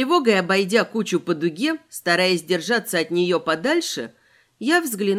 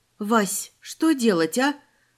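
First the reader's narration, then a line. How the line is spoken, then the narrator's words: Breathless exhale. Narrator (Russian): выдохнула я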